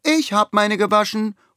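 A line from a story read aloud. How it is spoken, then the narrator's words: Loud call. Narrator (German): ruft Lisa laut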